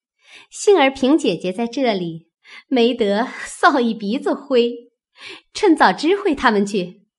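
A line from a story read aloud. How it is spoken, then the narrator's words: Playful laugh. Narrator (Chinese): 秋文听了伸了伸舌头笑道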